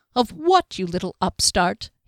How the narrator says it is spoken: he scoffed with a grin

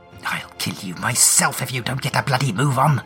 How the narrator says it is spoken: Trace hisses, fighting to keep her voice down

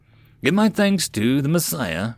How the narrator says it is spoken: Rothia replied uneasily

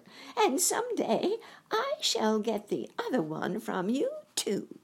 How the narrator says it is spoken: said the witch, laughing at her

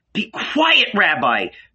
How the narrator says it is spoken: Mary screamed

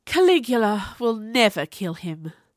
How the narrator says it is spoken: Drusilla sighed

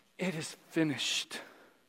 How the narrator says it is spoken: Jesus' sixth word, possibly little more than a tortured whisper

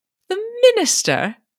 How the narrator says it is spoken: exclaimed with a slight curl of her lip

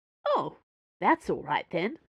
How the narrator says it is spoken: the nuns said happily

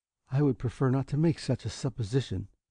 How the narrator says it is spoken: he said quietly

